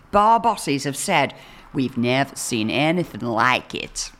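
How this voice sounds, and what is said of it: Put-on Boston accent. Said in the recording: “That's my Boston accent.”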